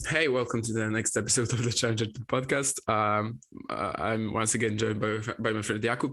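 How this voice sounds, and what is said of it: Slightly weird, sick-sounding voice. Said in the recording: “my voice is going to be a bit weird because I'm a bit sick”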